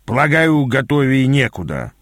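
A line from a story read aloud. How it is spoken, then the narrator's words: Grumbling. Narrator (Russian): пробурчал Аас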